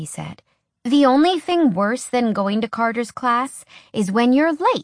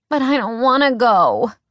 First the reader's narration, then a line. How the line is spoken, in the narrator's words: Alex whined